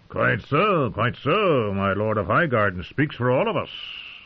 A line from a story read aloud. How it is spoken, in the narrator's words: Mace Tyrell had said in a jolly tone